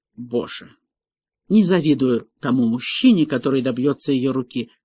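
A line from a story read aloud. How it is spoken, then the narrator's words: Grumbling. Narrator (Russian): Тайлер проворчал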